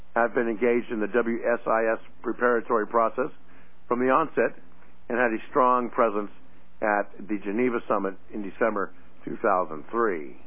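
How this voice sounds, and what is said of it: Hoarse, fading voice. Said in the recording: “seems like I'm losing my voice”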